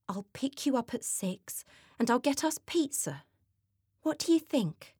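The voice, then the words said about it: Sweet, put-on nice voice. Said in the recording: “Suddenly she puts on her nice voice.”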